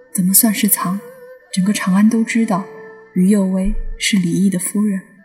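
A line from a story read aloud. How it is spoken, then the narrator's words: Shy but gentle. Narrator (Chinese): 他还是有些羞涩，却温柔地说道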